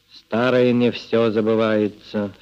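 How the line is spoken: Dry, curt. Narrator (Russian): сухо сказал Мишка

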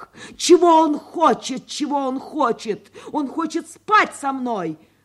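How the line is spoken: Exclamation. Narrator (Russian): воскликнула она

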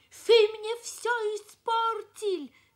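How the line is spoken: Angry shouting. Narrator (Russian): Кричал он

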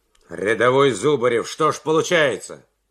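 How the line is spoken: Stern question. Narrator (Russian): строго спросил майор

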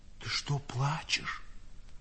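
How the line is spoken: Whispered question, old man. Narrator (Russian): шепотом спросил старик

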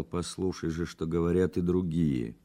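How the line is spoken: Quiet reproachful. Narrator (Russian): Быстров, укоризненно взглянув на него, тихо сказал

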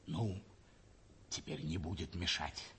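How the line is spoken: Hurried whisper. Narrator (Russian): прибавил торопливо еще шепотом гарнизонный офицер

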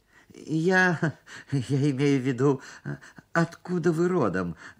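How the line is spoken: Stammering. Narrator (Russian): заикался

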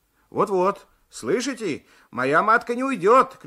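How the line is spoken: Shouting. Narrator (Russian): кричал Алексеев

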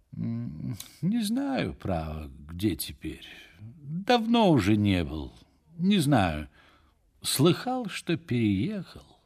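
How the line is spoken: Reluctant, sleepy, apathetic. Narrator (Russian): Нехотя отвечал он каким-то сонливо-апатическим тоном

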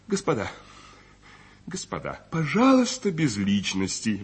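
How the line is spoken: Exclaimed. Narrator (Russian): воскликнул Николай Петрович

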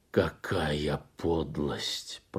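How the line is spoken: Gray-haired man, through clenched teeth. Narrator (Russian): процедил сквозь стиснутые зубы седовласый

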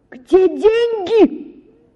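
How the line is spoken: Sudden alarmed shout. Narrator (Russian): закричала вдруг матушка, разом догадавшись, что произошло что-нибудь необыкновенное

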